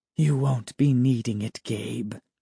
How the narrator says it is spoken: she said softly

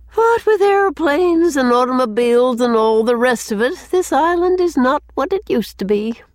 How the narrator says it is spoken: added Susan with a sigh

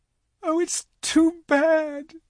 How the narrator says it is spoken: sobbed Lucy

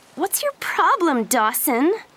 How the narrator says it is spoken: She asked angrily

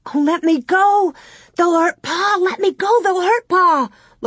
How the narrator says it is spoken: Laura screamed in a whisper

